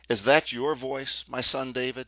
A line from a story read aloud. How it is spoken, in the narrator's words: When Saul heard these words, his old love for David came back to him, and he cried out